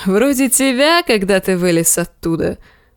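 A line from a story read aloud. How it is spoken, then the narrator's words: Laughing. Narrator (Russian): засмеялся Дарио Нахарис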